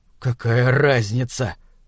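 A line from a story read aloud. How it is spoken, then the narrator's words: Muttered. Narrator (Russian): пробормотал Фишер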